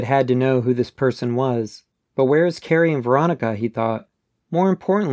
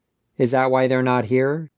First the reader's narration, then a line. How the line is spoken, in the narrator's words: he asked